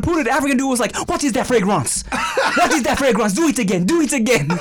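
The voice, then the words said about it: Put-on French accent. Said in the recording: “When you did the French accent”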